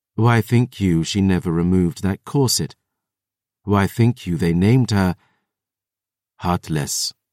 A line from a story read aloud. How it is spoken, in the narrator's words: Jean-Francois sighed